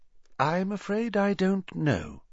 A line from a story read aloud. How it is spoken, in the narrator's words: said Dumbledore, his voice gentle